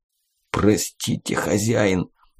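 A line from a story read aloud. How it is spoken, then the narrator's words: Whisper, then bloody coughing. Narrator (Russian): прошептал Сеня, тут же зашедшийся кровавым кашлем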